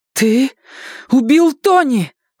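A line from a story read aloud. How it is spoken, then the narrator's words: Exclaimed. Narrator (Russian): воскликнула она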